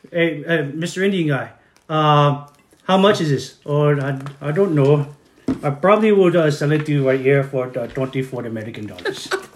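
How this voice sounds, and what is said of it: Put-on Indian accent. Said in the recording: “Can I request an accent? ... A dude from like New Delhi.”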